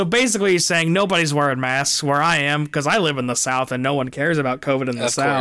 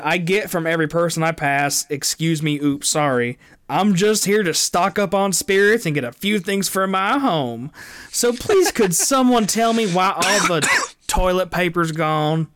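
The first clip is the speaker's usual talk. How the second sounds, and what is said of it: Slight twang. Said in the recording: “I like the little twang you're adding to it, too.”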